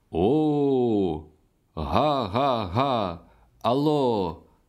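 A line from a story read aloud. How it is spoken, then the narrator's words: Loud drawn-out call. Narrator (Ukrainian): голосно протягло гукав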